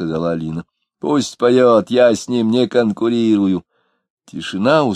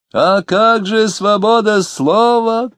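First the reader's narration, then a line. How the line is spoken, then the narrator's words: Shouting wit. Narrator (Russian): крикнул некий остроумец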